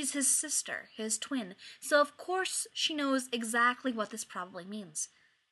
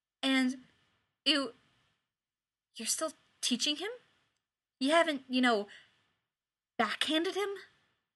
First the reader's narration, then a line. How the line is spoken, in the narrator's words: Her voice is shaking when she asks